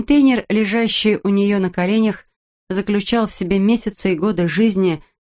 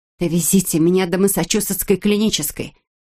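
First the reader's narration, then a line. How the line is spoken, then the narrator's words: Almost demanding tone. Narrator (Russian): почти требовательным тоном произнесла Эбби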